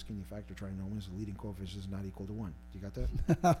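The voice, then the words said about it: Very fast speech. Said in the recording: “Said that so fast.”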